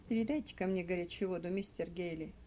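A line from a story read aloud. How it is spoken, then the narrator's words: Plain. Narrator (Russian): сказал Меркс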